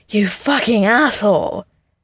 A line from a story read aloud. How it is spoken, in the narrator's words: Steve pants